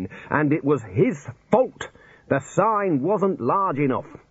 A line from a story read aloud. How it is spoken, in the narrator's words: roared the Dean